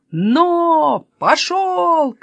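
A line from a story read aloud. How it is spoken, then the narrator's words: Several voices shouting. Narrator (Russian): кричали они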